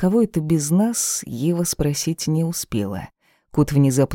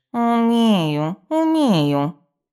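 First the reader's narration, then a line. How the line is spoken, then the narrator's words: Grumbling. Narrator (Russian): проворчал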